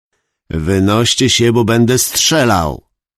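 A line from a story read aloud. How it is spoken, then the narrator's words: Shouted. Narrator (Polish): krzyknął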